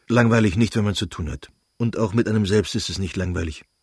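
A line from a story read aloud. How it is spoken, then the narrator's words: Curt, brusque. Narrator (German): antwortete Lewin schroff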